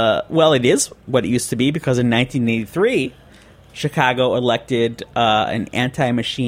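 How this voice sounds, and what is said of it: Usual voice. Nothing is said of it.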